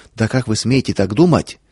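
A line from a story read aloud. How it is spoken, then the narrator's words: Angry reproachful muttering. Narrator (Russian): Медсестра, сердито, укоризненно, бормоча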